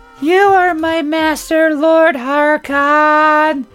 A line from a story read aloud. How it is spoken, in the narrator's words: Sabrina replied in a monotone